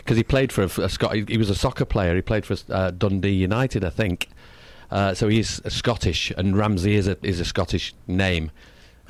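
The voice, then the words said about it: Manchester English accent. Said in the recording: “my language or my accent is different to the London. Like I come from Manchester, which is 180 miles north of London. It's a different accent completely.”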